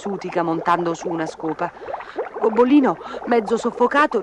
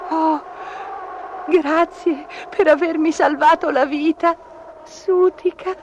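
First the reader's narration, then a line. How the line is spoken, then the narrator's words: Sobbed. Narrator (Italian): singhiozzò Gobbolino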